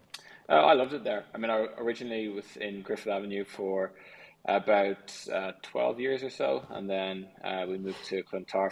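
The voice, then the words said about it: Irish Dublin accent. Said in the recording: “an Irish accent ... Is it a Dublin accent? ... It is a Dublin accent.”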